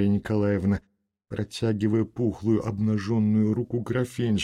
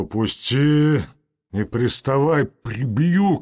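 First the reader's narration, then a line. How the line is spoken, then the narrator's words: Shout. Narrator (Russian): крикнул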